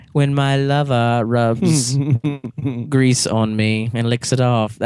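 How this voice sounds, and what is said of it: Bad Hannibal Lecter impression. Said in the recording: “your really bad Hannibal Lecter impersonation”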